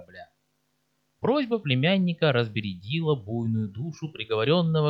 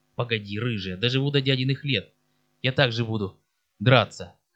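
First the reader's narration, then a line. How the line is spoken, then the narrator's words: Hoarse promise. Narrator (Russian): хрипло пообещал Марко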